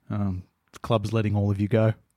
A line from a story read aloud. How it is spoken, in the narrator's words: Dimmer sadly he says, quite softly